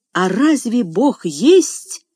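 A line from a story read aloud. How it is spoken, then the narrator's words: Desperate interrupting exclamation. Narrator (Russian): с отчаянием в голосе воскликнул Джордж, перебив старика на полуслове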